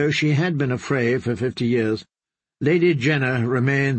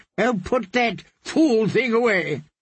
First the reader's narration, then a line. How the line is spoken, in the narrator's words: his wife snapped